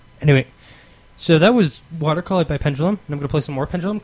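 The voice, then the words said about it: Out of breath. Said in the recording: “out of breath”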